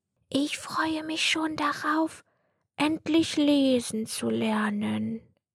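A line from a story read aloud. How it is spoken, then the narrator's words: Soft-spoken. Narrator (German): sagte er leise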